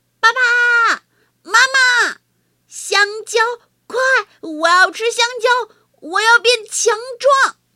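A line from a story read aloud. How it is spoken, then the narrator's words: Shouting while running. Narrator (Chinese): 他一边往回跑，一边喊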